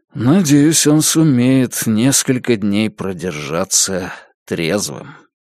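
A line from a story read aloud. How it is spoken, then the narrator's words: Sighing. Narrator (Russian): вздохнул Джейк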